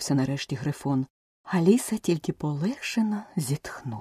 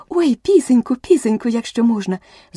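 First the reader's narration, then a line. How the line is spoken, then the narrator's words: Joyful shout. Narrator (Ukrainian): закричала Аліса з такою радістю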